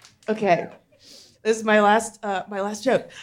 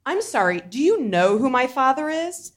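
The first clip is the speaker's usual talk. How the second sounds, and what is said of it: Spoiled rich girl voice. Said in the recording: “my impression of a really rich adopted girl trying to find her biological parents”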